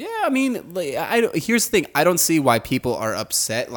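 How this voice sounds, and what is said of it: Usual voice. Nothing is said of it.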